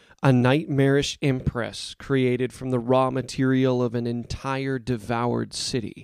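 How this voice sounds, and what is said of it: Usual voice. Nothing is said of it.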